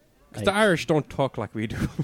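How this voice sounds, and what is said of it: Poor put-on Irish accent. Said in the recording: “That was terrible. ... That wasn't even my good Irish accent. Like, I fucked that.”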